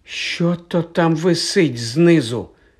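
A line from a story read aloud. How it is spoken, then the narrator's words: Trembling question. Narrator (Ukrainian): запитав тремтячим голосом Рон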